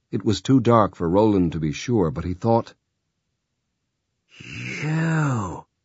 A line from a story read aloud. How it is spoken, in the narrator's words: Sister Coquina whispered with infinite hate